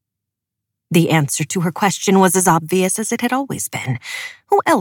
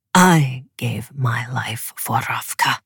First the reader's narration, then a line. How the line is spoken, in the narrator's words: he snarled at no one but the trees